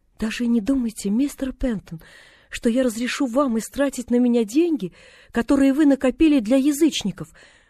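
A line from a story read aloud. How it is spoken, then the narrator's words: Resolute exclamation. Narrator (Russian): решительно воскликнула она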